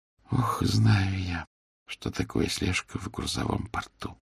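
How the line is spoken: Sighing. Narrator (Russian): вздохнула Мари

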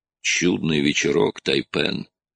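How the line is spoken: Quiet. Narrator (Russian): тихо произнес Скрагер

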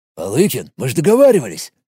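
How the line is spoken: Barely audible mumble. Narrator (Russian): Едва слышно пробубнил тот, что был с огненной плетью

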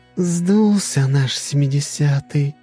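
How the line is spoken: Sighing. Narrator (Russian): вздохнула Альтера

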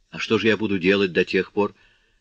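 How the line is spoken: Plain. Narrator (Russian): спросила Козетта

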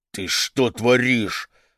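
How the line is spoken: Angry hiss. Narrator (Russian): зашипел он на жену

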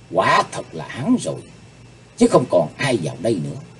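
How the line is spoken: Involuntary muttering. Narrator (Vietnamese): Bất giác nàng ... miệng lẩm bẩm

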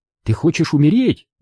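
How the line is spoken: Sharp. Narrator (Russian): сказала она резко

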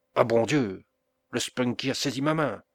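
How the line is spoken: Woman's alarmed exclamation. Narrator (French): s'écria-t-elle

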